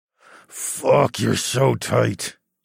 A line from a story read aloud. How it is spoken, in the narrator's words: growled